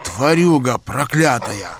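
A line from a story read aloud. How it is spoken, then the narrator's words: Hiss. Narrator (Russian): прошипел он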